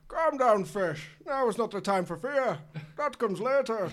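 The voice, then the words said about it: Put-on voice drifting into Yorkshire accent. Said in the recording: “That accent just went off just to the end. You went Yorkshire just at the end. ... Bane hard right in Yorkshire.”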